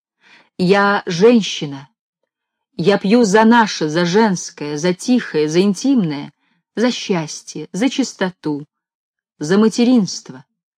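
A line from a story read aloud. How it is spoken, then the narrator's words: Loud. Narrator (Russian): говорила громко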